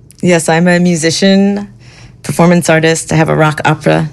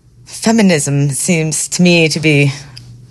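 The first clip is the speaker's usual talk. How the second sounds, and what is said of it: Put-on Shakespearean accent. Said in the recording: “Why are you speaking in a Shakespearean accent?”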